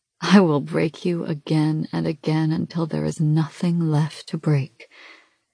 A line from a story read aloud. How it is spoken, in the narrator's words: the thief says softly